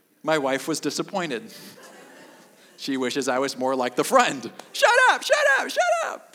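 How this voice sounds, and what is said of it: Usual voice. Nothing is said of it.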